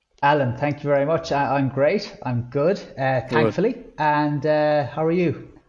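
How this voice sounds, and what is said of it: Irish accent. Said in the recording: “an Irishman. Someone from Ireland ... a recognisable accent”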